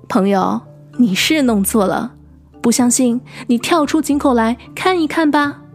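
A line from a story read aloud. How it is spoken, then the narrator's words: Amused, laughing. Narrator (Chinese): 小鸟也笑了，说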